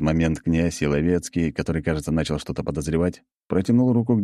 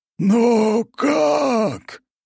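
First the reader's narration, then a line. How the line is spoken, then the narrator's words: Incredulous exclamation. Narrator (Russian): воскликнул князь Еловецкий, не в силах поверить своим глазам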